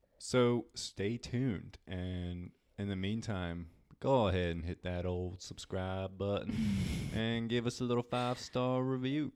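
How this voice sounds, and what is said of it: Slight Southern US accent. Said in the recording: “Oh, a little southern accent coming through.”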